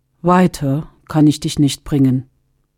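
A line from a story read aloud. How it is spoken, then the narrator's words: Plain. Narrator (German): sagte er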